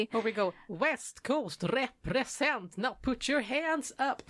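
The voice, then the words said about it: Singing in a Gothenburg accent. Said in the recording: “that was me trying my best to sing with a Gothenburg accent.”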